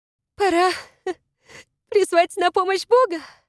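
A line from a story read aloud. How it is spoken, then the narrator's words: Laughing through sobs. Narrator (Russian): сказала она, пытаясь рассмеяться между рыданиями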